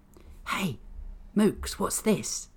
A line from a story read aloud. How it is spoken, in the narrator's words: The whisper came from Mookie's right